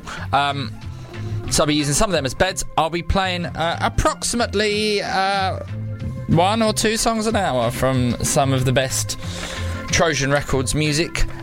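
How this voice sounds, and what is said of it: Cockney drawl. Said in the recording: “my waspish cockney little drawl”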